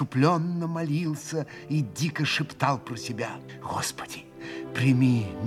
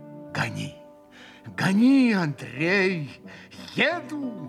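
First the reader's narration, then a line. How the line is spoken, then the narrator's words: Feverish exclamation. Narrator (Russian): воскликнул как бы в горячке Митя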